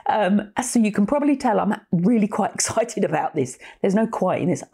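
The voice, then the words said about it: Croaky voice, talking quickly. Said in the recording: “my voice is a bit croaky on this. I'm also realizing I'm talking relatively quickly.”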